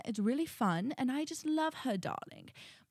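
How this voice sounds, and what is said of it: Put-on British accent. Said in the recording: “One of them is I love to do my British accent. This is my British accent.”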